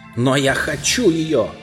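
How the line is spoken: Shouting prince. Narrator (Russian): закричал царевич

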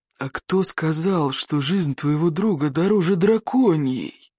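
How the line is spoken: Creaky rasp. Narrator (Russian): проскрипел Одноглаз

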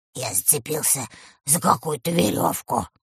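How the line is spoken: Mumbled. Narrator (Russian): пробормотал леший

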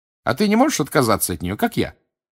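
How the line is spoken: Cheerful question. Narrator (Russian): бодро спросила Гермиона

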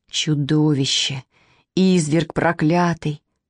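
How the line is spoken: Indistinct muttering. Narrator (Russian): непонятное бормотание

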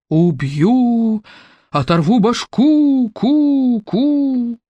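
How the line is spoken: Deafening thunderous voice overhead. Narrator (Russian): оглушительно прогремел над их головами чей-то голос

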